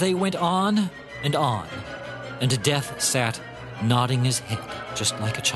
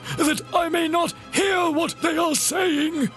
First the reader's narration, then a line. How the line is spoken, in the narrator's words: he cried